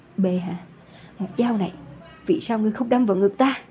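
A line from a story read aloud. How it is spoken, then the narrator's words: Weak, trembling voice. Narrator (Vietnamese): Lâm Nguyên hơi đứng không vững, run rẩy nói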